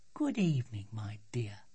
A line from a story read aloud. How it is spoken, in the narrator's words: she said softly